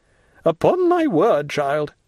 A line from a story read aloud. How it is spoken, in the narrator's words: exclaimed the angry Marquise